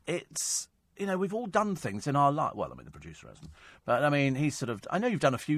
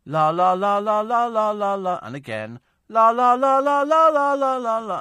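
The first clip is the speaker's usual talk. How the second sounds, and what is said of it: Off-key la-la singing imitation. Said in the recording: “I wasn't doing it in tune. I was doing an impression of you.”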